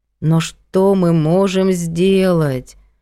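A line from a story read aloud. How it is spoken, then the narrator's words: Weary question. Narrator (Russian): устало спросила Надя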